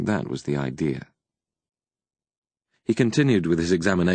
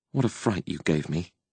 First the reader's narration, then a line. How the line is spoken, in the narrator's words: she mumbled with disapproval